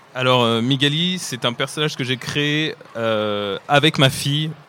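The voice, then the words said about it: French accent, not Québécois. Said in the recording (French): “comme vous pouvez l'entendre à mon accent, je ne suis pas québécois, mais je suis français”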